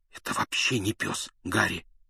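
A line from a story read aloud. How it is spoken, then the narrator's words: Pained gasp through teeth. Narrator (Russian): выдохнул Рон, скрипя зубами от боли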